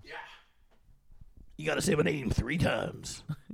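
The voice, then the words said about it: Imitates Beetlejuice's voice. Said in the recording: “That was a pretty good impression.”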